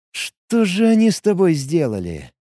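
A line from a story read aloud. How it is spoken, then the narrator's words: Barely audible, stunned. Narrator (Russian): едва слышно, ошеломленно произнес молодой сотник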